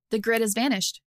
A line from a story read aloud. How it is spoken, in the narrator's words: Annie said